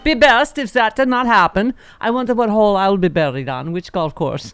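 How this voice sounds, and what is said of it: Imitates another person's voice, put-on accent. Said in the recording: “what am I doing that accent? ... You sound more like Zsa Zsa Gabor.”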